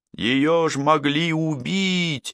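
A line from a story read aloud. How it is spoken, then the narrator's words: Shouting. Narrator (Russian): закричала Прерия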